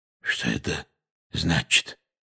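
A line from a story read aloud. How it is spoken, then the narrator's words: Hoarse question. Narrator (Russian): хрипло спросил дядя Вернон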